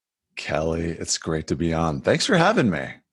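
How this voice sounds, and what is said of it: Polished radio announcer voice. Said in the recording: “He already started playing that killing radio voice.”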